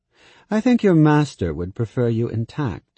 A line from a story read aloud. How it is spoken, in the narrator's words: said Laurent, dryly